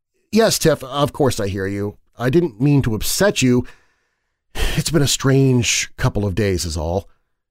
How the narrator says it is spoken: she answered nervously

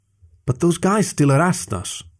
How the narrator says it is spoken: Lorenzo sighed

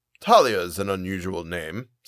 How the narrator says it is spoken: said Uncle

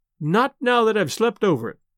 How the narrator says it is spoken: replied Caroline, laughing

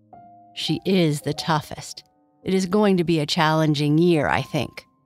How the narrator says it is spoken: Kai Kai said with a sigh

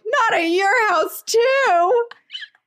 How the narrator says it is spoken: cried

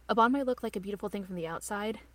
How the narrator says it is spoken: Rin says

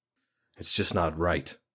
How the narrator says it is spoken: murmured

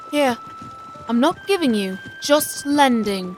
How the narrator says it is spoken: Jiang Ni said softly

